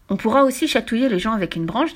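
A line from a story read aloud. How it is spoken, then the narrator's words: Plain. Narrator (French): dit Fifi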